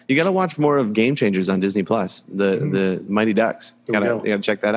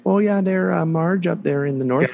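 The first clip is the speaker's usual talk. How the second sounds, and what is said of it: Put-on Minnesota accent. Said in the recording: “my Minnesota accent ... it's like you're talking to that loving grandmother”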